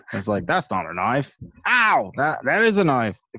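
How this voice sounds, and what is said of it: Put-on Australian accent. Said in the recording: “Talked with an Australian accent.”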